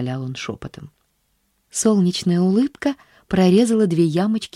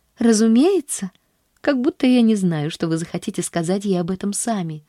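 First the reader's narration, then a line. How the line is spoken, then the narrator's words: Cheerful, tossed over shoulder. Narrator (Russian): весело бросила она через плечо, выбегая из комнаты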